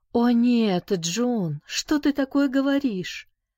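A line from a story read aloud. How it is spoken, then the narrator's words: Exclaiming. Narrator (Russian): воскликнула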